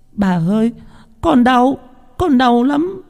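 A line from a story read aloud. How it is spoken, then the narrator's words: Crying child begging. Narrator (Vietnamese): khóc lóc van xin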